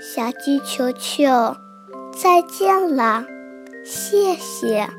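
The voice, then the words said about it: Weak, faint voice. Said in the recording (Chinese): “向日葵用微弱的声音说”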